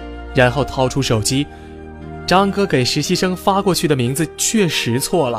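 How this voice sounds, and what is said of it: Usual voice. Nothing is said of it.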